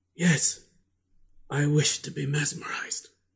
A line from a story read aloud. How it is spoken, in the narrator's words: He replied feebly, yet quite audibly